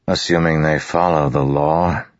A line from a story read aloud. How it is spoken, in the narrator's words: Kaladin said with a sigh